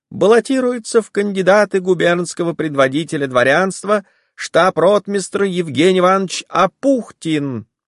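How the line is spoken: Thin loud proclamation. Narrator (Russian): стоял человек в мундире и тонким громким голосом провозглашал

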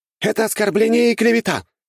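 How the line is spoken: Courtier's shout. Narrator (Russian): выкрикнул кто-то из придворных

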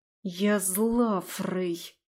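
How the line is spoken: Hiss. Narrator (Russian): прошипела я

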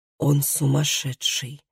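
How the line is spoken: Furious whisper to self. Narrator (Russian): яростно прошептал Тарий самому себе

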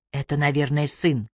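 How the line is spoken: Whisper. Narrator (Russian): шепнула она ему

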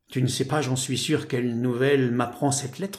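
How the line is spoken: Plain. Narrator (French): me dit-il

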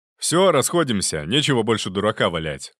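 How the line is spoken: Sharp shout. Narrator (Russian): прикрикнул Зубов

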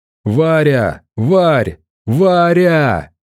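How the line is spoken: Panicked yell. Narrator (Russian): в панике заорал я

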